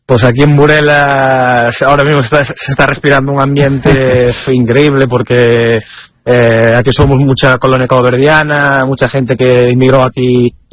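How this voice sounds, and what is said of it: Galician Spanish accent. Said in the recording (Spanish): “por tu acento, también gallego de Burela”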